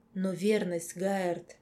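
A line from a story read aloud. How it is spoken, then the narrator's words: Hoarse question. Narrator (Russian): странная собеседница хрипло вопросила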